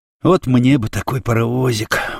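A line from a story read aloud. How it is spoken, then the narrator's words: Sigh. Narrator (Russian): вздохнул Никита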